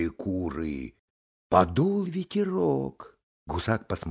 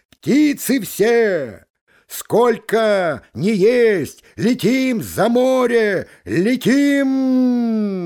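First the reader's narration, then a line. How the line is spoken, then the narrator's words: Gander's shout. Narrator (Russian): гусак крикнул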